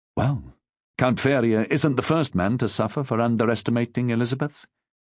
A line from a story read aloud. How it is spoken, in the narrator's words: said quietly